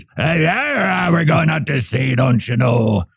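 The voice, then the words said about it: Pirate impression voice. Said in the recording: “That's all I can do for pirate impersonations.”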